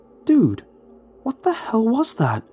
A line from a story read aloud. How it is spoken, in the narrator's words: Ronnie exclaimed